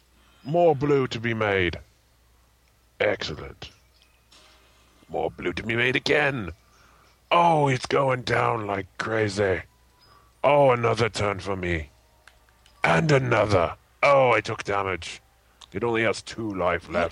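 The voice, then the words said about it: Put-on grumpy dwarven Scottish-like accent. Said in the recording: “What is this accent you're doing? ... That's your Scottish accent? ... It's kind of like a dwarven thing. ... Old grumpy men.”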